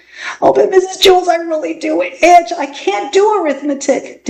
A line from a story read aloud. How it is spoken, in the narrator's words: Dana whined